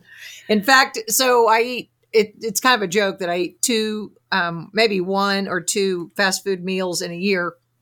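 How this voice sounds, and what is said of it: Southern Arkansas accent. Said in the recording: “my Arkansas accent”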